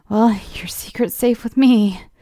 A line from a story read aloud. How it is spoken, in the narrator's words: I laughed nervously